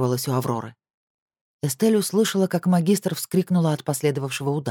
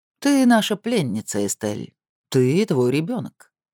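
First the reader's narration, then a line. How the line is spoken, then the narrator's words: Calm confirmation. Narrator (Russian): спокойно подтвердил голос Роттера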